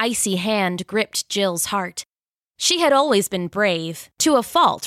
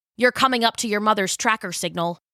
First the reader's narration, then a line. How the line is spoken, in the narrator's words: Speck said